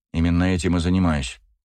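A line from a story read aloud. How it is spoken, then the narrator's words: Dry. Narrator (Russian): сухо ответила Зулу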